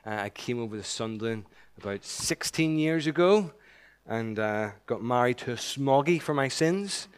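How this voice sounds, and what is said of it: Non-local regional accent. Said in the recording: “You can tell by my accent, I'm not from around here.”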